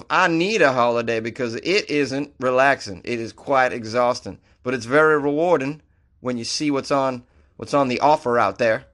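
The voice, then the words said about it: Inaccurate put-on accent. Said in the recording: “Lee is a weather forecaster from the UK. Oh, so my accent was way off.”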